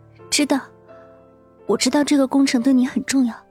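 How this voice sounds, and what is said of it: Quiet, soft-spoken voice. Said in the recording (Chinese): “咬着嘴唇， 小声说”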